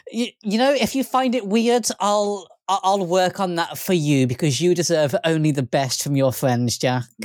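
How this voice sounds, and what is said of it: Overly positive NPC-like voice. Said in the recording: “You sound like an NPC”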